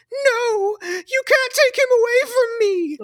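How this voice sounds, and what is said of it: Deliberately bad melodramatic actress voice. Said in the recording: “I'm doing this voice badly on purpose. This is not a good actress.”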